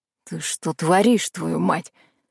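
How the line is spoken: Hissing. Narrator (Russian): зашипел Валера

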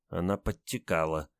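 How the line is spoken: Mumbling. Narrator (Russian): промямлил унтер-офицер

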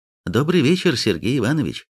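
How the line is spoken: Plain. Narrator (Russian): сказал Алекс

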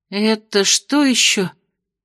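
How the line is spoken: Muttering. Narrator (Russian): пробормотала Венди

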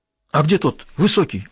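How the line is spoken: Anxious question. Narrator (Russian): взволнованно спросил Севран

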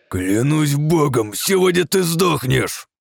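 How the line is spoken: Through gritted teeth. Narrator (Russian): процедил Злоуникум

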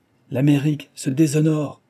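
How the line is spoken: Shout. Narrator (French): cria à son tour Mrs

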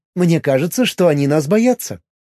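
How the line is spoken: Wry snort. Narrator (Russian): хмыкнула Миром

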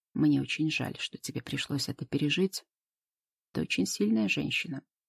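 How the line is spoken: Quiet speech. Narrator (Russian): Он тихо произнес

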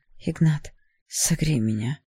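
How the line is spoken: Whisper. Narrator (Russian): прошептал

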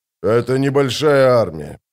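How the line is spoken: Grumbling. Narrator (Russian): проворчал Брухалиан

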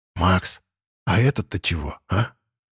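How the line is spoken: Whisper. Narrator (Russian): прошептал Вадим

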